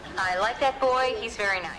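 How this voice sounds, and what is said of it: Impression of a mother's voice. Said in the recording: “doing an impression of my mom”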